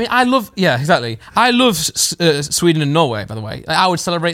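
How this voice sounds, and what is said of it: Usual voice. Nothing is said of it.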